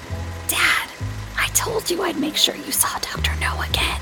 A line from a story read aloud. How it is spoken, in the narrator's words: He whispered loudly over the film's opening chorus